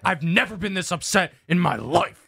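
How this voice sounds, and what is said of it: Imitates another person's voice. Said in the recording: “good Valdez impression”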